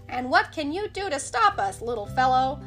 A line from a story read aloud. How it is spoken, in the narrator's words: asked with a chuckle, in a cocky way